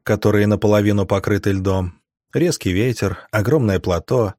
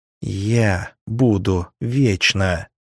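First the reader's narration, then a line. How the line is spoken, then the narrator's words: Angry hiss. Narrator (Russian): зло прошипела нимфея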